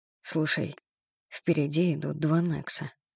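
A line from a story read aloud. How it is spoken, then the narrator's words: Whisper. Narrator (Russian): шепнул я Эрику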